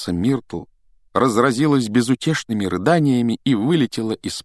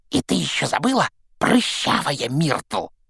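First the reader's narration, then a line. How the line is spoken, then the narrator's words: Hiss in ear. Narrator (Russian): прошипел ей в ухо Пивз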